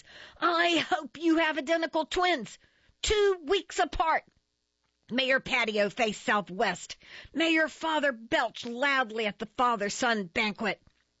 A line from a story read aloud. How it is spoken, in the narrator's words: I yelled at the top of my voice